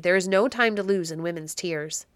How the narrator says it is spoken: said the Baron harshly

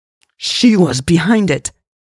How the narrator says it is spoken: Louise spat out

